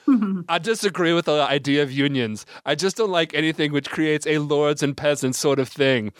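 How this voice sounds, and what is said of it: Deliberately bad imitation of another person. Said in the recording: “my bad Elon Musk impression ... I do a really bad one”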